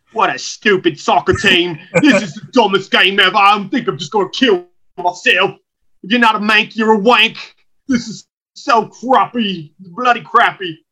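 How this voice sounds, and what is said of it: Put-on Cockney accent. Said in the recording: “That's a Cockney accent. ... that's a Cockney accent. That's not a Liverpool accent.”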